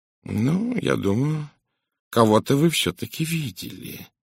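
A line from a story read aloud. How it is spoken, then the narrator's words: Soft usual tone. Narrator (Russian): сказал Пуаро обычным своим мягким тоном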